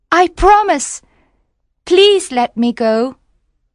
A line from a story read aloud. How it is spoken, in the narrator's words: cried the mermaid